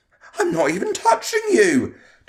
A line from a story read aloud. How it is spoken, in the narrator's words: Tom exclaimed, sounding hurt at being falsely accused